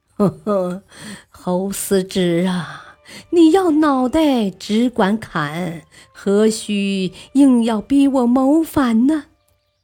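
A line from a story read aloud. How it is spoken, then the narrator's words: Smiling. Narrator (Chinese): 微笑道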